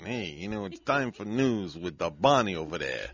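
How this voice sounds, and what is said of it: Put-on Italian-American mobster accent. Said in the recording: “I'm just going to do the morning show like this, you know, with this accent. ... I got a lot of Italian in me”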